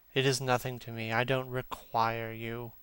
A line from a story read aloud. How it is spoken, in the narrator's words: said Campbell coldly